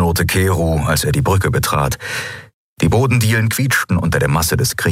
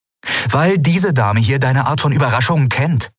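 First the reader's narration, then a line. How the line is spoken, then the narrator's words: Plain. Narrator (German): sagte Endriel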